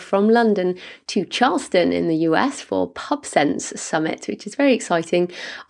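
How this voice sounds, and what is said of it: Husky, sick-sounding voice. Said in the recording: “You may also hear from my voice. I'm a little bit sick. ... apologies for my my voice ... you're going to get the husky”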